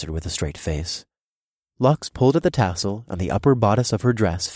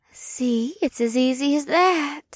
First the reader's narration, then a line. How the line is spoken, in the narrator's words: Lixis purred